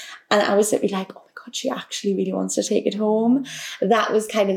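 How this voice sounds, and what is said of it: Usual voice. Nothing is said of it.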